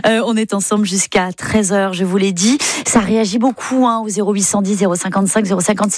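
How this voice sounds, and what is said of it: Breton-English accent. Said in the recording (French): “Il y a toujours cet accent breton-anglais, hein, dont je n'arrive pas à me départir”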